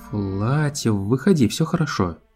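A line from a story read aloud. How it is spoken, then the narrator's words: Uncertain. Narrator (Russian): неуверенно сказала Твайлайт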